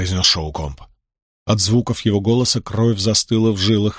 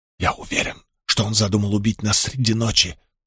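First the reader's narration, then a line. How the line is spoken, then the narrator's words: Whisper. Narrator (Russian): прошептал Мэтью судье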